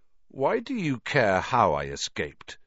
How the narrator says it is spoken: said Harry, slowly

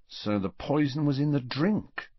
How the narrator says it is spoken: said Fred quietly

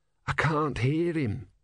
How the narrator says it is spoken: said Brother hoarsely

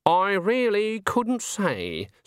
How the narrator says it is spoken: said Granny haughtily

